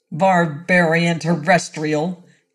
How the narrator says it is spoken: he snarled

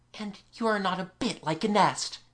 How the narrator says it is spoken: he whispered to please her

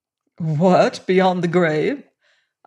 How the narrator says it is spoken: laughed

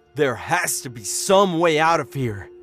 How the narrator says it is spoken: Dad growled

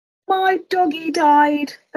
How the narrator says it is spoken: a child cried

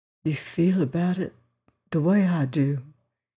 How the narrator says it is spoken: almost whispered

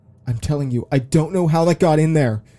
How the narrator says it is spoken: shouted Justine

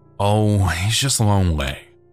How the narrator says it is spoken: she said with a sigh

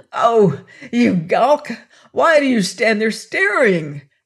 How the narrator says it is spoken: cried the old hag

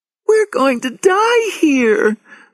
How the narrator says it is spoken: Lauren cried

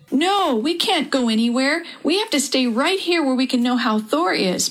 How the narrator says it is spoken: Perry cried

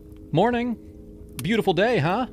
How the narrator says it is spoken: I called out, trying to sound casual

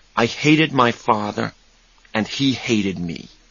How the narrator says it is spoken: he said quietly

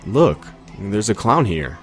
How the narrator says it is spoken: a kid from our neighborhood said in a loud voice

